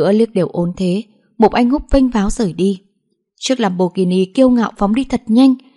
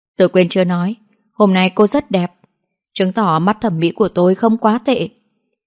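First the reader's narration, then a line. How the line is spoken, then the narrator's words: Roguish smiling tone. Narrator (Vietnamese): Mục Anh Húp mỉm cười lưu manh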